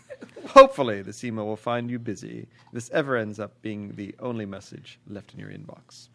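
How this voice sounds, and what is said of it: Inconsistent put-on British accent. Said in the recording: “Was that existential British woman? ... That was some Monty Python left. ... You were all over the map on that British accent.”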